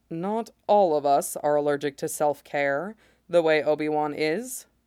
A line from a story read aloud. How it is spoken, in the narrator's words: Mace says dryly